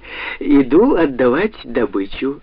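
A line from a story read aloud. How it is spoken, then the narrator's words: Laughing. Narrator (Russian): засмеялась она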